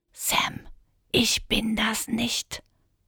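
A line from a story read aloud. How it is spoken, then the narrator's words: Whispered. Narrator (German): flüsterte Manu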